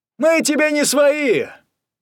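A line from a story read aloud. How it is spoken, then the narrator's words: Shout from the crowd. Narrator (Russian): крикнули из зала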